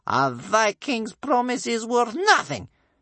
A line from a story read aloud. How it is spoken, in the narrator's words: spat Bear Cub's grandmother